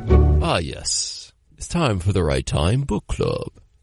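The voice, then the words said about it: Put-on British accent. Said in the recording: “is that a like adequate British accent?”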